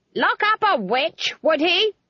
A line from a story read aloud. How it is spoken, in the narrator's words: Granny shouted at the trees